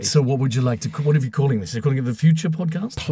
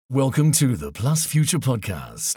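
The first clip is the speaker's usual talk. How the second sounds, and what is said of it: Put-on American accent. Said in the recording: “You can do an American one.”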